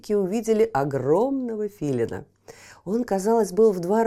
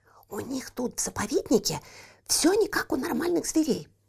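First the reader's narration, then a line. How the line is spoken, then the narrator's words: Whisper. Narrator (Russian): прошептала брату Еля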